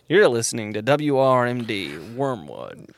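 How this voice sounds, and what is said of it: Radio announcer voice. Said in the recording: “That's your radio voice?”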